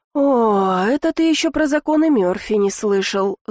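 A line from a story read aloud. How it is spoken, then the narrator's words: Sighing. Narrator (Russian): вздохнула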